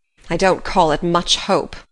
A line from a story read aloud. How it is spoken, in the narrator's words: said Marilla bitterly